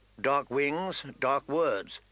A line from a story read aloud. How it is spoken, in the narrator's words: Ned said grimly